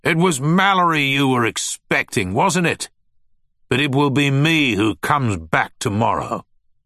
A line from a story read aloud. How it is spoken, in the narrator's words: Finch shouted